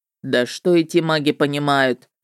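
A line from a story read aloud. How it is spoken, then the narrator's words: Snorting, dismissive. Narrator (Russian): хмыкнул он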